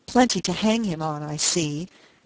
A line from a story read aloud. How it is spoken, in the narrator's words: Penny cried furiously